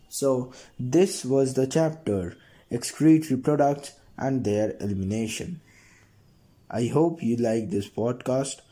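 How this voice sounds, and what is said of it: Congested voice from a cold. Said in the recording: “I have some cough and cold going on. That's why my voice is like this”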